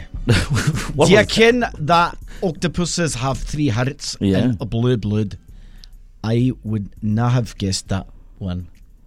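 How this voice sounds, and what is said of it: Put-on Scottish accent. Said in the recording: “That accent was Scottish.”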